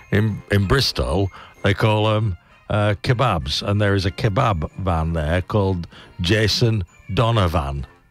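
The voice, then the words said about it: Slipping Bristol accent, elongated vowels. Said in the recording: “bit harsher, but it's quite like Welsh ... a bit down there, the slightly even more elongated vowels ... this accent's slipping”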